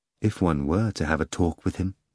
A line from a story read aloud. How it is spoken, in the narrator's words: the prisoner said suddenly, in a wistful voice